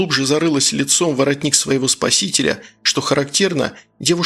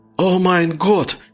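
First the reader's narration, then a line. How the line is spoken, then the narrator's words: Sudden cry. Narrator (Russian): внезапно вскрикнул Гаубер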